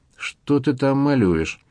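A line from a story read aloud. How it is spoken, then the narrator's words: Sleepy question. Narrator (Russian): сонно поинтересовался Свет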